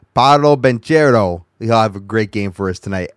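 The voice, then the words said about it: Exaggerated accent on a name. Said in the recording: “let my accent come out a little bit here.”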